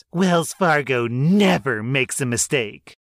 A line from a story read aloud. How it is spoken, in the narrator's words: she said in a condescending tone of voice